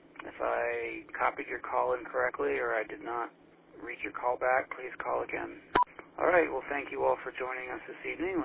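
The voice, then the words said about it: Tired-sounding voice. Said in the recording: “You sound a little tired.”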